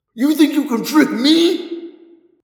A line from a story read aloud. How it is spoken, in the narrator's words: He shrieked